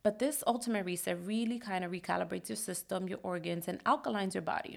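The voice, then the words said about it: Stuffy, congested voice. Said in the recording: “I sound stuffy because I'm still trying to get over this cold thing that I have”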